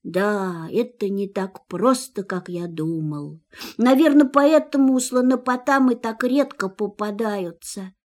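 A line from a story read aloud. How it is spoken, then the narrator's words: Sad. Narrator (Russian): грустно добавил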